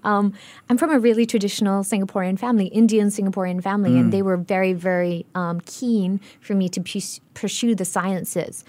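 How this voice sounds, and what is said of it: Mixed international global citizen accent. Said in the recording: “I'm acutely aware of my global citizen accent problem”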